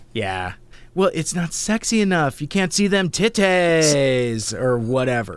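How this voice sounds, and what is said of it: Sarcastic delivery. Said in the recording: “I'm saying that sarcastically.”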